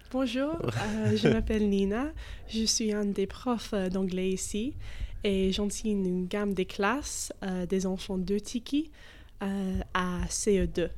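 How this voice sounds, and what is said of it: English accent speaking French. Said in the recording (French): “Elle a un délicieux accent anglais.”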